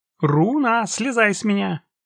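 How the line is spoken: Shouting. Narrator (Russian): крикнула Юлька

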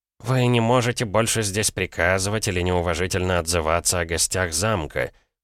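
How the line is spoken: Through gritted teeth. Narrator (Russian): процедил Савинов

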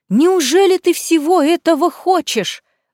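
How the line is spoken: Exclamation. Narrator (Russian): воскликнула тетя

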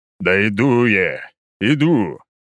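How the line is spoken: Grumbling. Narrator (Russian): проворчал я

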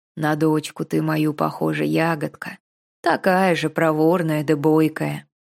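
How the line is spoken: Warm hoarse bass. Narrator (Russian): дядька улыбнулся ласково и сказал хриплым басом

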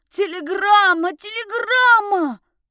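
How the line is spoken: Loud offended yell. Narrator (Russian): Громко завопил оскорбленный Чук

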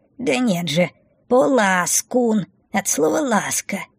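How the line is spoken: Indignant correction. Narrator (Russian): возмущенно исправил его хвостатик

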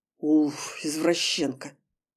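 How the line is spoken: Snorting young man. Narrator (Russian): фыркнул парень

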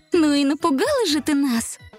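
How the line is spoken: Friendly, smiling. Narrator (Russian): Приветливо улыбнулась Снежка

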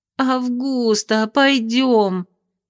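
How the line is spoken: Pleading. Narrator (Russian): буквально взмолилась Бинди

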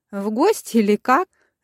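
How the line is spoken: Laughing mother. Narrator (Russian): рассмеялась мама

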